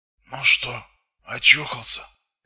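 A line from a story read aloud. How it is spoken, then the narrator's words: Hoarse question. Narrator (Russian): сипло спросил он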